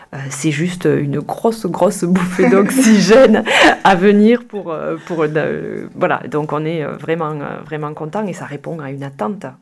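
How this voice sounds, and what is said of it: Sing-song southern French accent. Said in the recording (French): “cet accent chantant ... Carcassonne, Castelnaudary”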